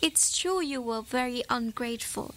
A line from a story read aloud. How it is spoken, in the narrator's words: she said